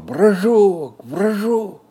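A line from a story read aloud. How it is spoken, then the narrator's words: Shouting. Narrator (Russian): Он и закричал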